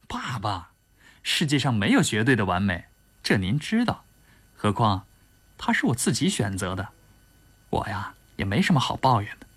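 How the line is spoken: Smiling. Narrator (Chinese): 田雨笑笑说

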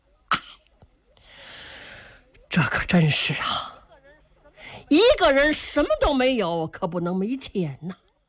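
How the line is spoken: Sigh. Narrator (Chinese): 秦琼叹了一口气

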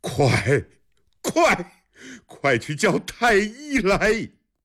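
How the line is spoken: Repeated loud shouting. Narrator (Chinese): 长孙无忌连声大喊

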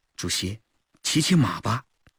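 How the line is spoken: Quiet voice. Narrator (Chinese): 警卫员吴吉清小声说

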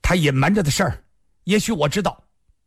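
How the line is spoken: Sudden loud. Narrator (Chinese): 金凤白突然大声说道

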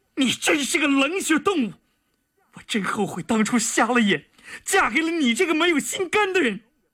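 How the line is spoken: Frantic shout. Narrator (Chinese): 田宇再也控制不住了，他觉得浑身的血液都冲进了脑子里，他不顾一切的大喊道

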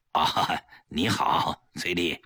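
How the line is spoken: Gloomy, forced cheerful greeting. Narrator (Chinese): 面色阴暗，强打笑脸…打招呼

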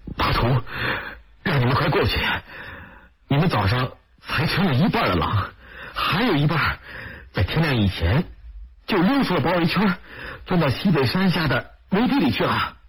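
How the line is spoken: Panting, urgent. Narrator (Chinese): 马官布赫气喘吁吁的对乌力吉和包身贵说

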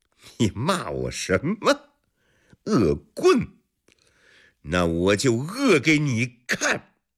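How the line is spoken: Wild laughter. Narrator (Chinese): 石罗蝶一阵狂笑

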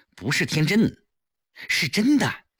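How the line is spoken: Hurried explanation. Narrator (Chinese): 顾青急忙解释道

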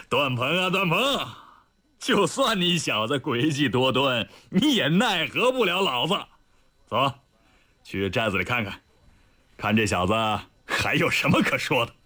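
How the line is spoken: Laughing loudly skyward. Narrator (Chinese): 李云龙仰天大笑道

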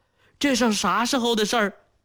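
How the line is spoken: Startled, hurried question. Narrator (Chinese): 浑身一震，急忙问道

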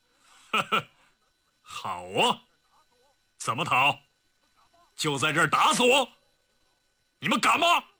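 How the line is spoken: Cold laugh. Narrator (Chinese): 李云龙冷冷一笑

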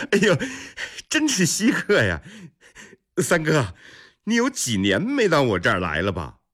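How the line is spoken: Distant laughter. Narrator (Chinese): 远远就听见李泰的笑声传来

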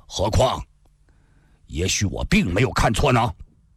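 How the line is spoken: Sudden cold remark. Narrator (Chinese): 赵正义突然又冷冷地说

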